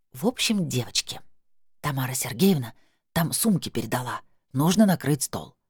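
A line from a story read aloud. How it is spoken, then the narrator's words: Solemn hissing whisper. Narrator (Russian): женщина с локоном продолжила торжественным свистящим шепотом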